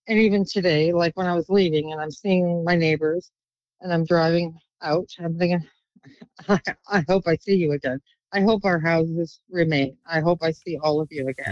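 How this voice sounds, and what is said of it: Emotional, voice filled with feeling. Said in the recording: “I'm getting emotional talking about that.”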